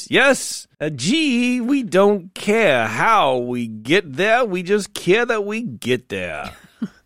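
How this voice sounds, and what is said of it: Bizarre shifting put-on accent. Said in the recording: “I'm from 5 different regions simultaneously. My accent is bizarre. And fluid”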